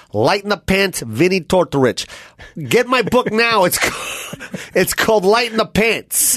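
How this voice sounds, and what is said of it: Imitates another person's voice. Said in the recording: “That's me doing you”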